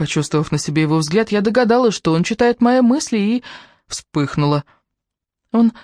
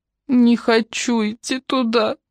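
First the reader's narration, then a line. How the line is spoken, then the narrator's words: Sobbing. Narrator (Russian): рыдала обыкновенно очень слезливая Кэрри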